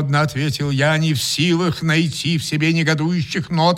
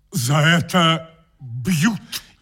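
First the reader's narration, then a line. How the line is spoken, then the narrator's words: Grumbling. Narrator (Russian): проворчал он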